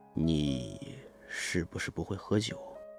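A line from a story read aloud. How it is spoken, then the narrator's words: Low, deep voice. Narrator (Chinese): 我爸声音低沉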